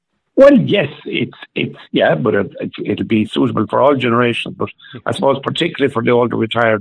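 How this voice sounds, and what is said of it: Slightly hoarse voice. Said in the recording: “My voice is a little bit hoarse at the moment.”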